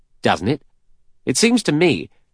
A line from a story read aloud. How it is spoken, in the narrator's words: He said sharply